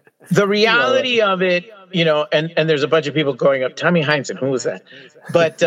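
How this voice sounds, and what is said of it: Usual voice. Nothing is said of it.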